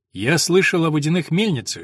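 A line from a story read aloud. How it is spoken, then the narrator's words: Thoughtful. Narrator (Russian): задумчиво проговорил Том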